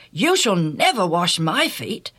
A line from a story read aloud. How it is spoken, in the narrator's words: Peter exclaimed